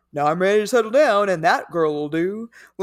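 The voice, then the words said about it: Fred Flintstone-style cartoon voice. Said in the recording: “I just started talking like Fred Flintstone ... the Georgia accent ... my accent was much closer to Yogi Bear”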